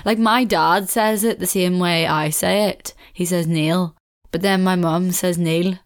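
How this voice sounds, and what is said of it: Weird regional accent. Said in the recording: “I have this weird, I don't know, I just guess I have a weird accent.”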